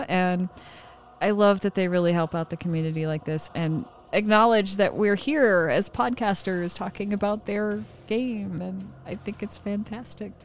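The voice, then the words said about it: Happy, smiling voice. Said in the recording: “I can't stop smiling. You can probably tell from my voice. I'm just like super happy about it.”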